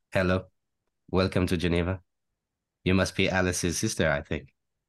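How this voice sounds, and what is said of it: Put-on Swiss-French accent. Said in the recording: “How do you do a Swiss-French accent then? ... It's very Hercule Poirot, but kind of a Swiss kind of”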